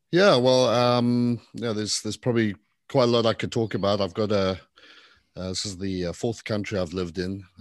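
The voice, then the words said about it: Slight foreign accent. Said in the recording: “you got a little bit of an accent”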